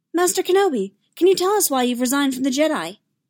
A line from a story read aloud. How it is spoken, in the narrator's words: a reporter chirped